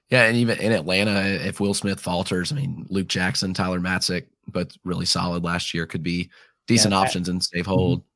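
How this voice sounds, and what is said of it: Southern accent, voice somewhat weakened. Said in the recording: “I don't have the voice for it right now, honestly ... is struggling down the stretch here ... with your Southern accent, 80% of your normal voice”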